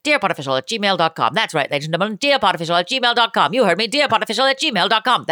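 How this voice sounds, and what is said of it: Fast auctioneer-style radio ad voice. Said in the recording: “That's my auctioneer voice. ... The guy that did the Micro Machine commercials that could the speed talker?”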